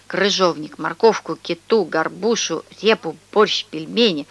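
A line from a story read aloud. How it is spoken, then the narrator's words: Mumbling. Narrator (Russian): Он бормотал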